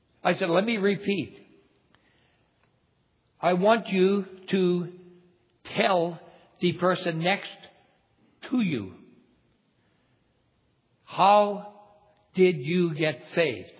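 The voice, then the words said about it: Northern brogue. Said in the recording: “my accent, maybe my northern brogue”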